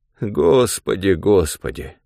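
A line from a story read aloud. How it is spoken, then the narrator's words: Old man sighing. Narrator (Russian): опять вздохнул дед Нечай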